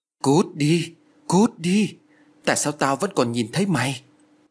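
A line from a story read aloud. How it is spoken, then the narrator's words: Terrified trembling shout. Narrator (Vietnamese): Lan lúc này đã thu mình vào trong một góc nhà, ôm đầu run rẩy miệng la lớn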